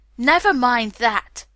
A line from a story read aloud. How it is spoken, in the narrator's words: Green cried